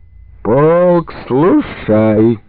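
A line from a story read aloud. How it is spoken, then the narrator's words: Drawn-out drunken shout. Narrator (Russian): Протяжно прокричал пьяным голосом Антощенко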